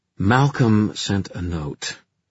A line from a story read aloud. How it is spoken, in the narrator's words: Ty said in a withering tone, as if he were disappointed that Malcolm had ruined crime-solving with his confession